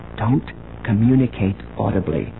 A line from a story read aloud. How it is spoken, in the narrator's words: she whispered